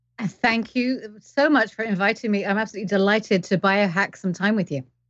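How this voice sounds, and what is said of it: Mixed English accent. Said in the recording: “You don't sound Canadian. ... I am English, but I've lived all around the world. So I've got weird accent.”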